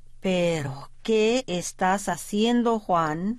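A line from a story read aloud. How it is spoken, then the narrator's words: Plain question. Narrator (Spanish): le preguntó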